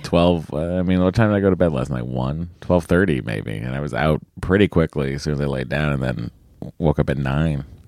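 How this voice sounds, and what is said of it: Slightly raspy voice. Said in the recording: “my voice is a little raspy. A little raspy.”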